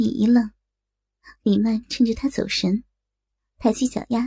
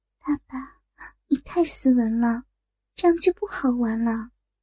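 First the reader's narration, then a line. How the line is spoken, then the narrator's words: Whispering into ear. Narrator (Chinese): 嘴巴凑到耳边，低声地说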